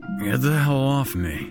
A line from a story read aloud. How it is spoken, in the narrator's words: Jack grunted